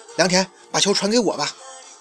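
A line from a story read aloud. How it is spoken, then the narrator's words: Hurried call. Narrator (Chinese): 安田 急忙示意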